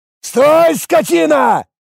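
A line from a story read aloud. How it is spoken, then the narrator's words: Yelling man. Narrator (Russian): заорал владелец винограда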